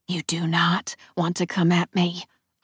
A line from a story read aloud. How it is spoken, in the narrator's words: I hiss